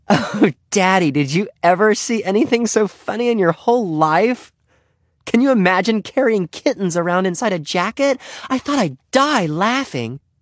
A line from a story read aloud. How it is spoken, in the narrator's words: Henry heard his daughter exclaim